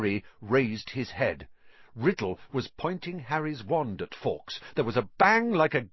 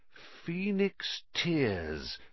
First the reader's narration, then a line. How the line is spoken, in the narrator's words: said Riddle quietly